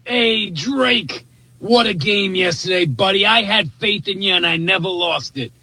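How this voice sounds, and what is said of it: Strong Boston accent. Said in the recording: “That accent to me is the greatest thing ever ... That's a classic Bostonian”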